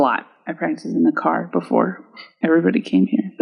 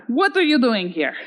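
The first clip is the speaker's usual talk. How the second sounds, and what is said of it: Put-on Russian accent. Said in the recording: “Was that your Russian accent?”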